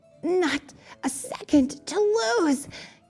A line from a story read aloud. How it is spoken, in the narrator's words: gasped Eric